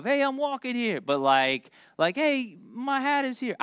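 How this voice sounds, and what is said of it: Put-on New York accent. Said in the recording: “I don't know if I could do a New York accent.”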